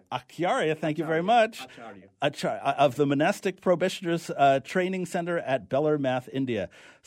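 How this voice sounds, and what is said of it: New York accent. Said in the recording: “you're gonna put up with my New York accent”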